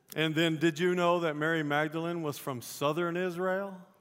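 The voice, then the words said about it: Southern Texas drawl. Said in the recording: “that little drawl? She's from Texas, y'all.”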